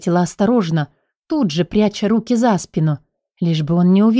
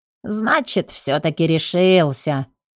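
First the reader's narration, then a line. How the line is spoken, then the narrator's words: Snort, odd intonation. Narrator (Russian): хмыкнул с непонятной мне интонацией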